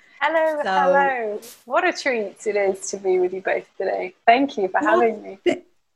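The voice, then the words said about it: English accent. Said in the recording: “Coming all the way from England. And we get to hear this wonderful accent.”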